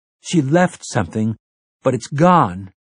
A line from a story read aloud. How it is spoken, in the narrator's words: Jake said in a distressed, almost crying voice